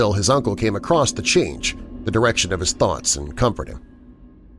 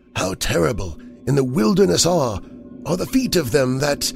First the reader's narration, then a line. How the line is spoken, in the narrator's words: he would moan